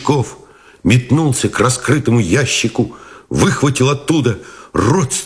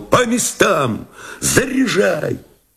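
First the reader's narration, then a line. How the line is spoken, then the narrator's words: Shout. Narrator (Russian): он крикнул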